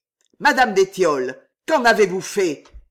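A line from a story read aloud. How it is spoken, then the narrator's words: Growled. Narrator (French): gronda-t-il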